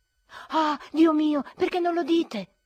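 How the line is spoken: Shouting. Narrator (Italian): gridai io

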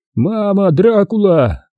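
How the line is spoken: Wounded man screaming. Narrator (Russian): вроде младший офицер, лежал с простреленными ногами и кричал

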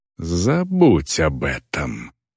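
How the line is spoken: Hissed. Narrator (Russian): прошипела орка

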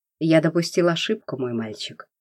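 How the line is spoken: Cold voice over phone. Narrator (Russian): холодно прозвучало в трубке

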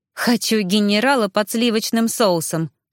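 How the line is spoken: Displeased snort. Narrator (Russian): фыркнула недовольно

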